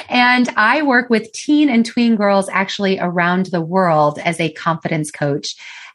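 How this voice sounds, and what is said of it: American accent. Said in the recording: “I am from the United States. I don't know if you can tell by my accent.”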